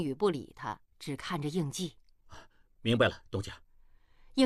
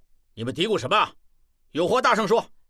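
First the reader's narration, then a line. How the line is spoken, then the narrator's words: Loud question, guard captain. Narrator (Chinese): 卫队长 大声问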